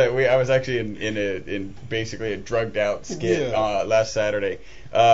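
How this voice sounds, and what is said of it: Usual voice. Nothing is said of it.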